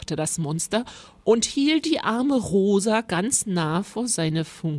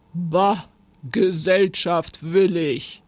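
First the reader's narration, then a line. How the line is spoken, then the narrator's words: Monster growling. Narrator (German): knurrte das Monster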